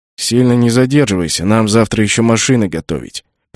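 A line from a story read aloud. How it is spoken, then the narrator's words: Grumbled. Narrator (Russian): пробурчал Пат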